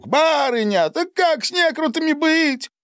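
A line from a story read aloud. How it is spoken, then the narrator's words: Old man shouting. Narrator (Russian): выкрикнул старик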